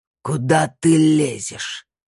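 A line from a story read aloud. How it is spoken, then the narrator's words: Hoarse and loud. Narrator (Russian): Его голос был хриплым и громким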